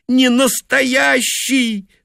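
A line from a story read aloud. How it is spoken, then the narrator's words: Tearful insistence. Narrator (Russian): твердила она сквозь слезы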